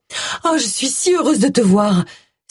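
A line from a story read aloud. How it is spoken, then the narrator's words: Exclamation. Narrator (French): s'exclama-t-elle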